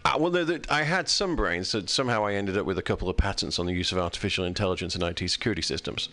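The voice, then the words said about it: Noticeable foreign accent. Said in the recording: “I pretty much trade on the accent... Trade on that accent.”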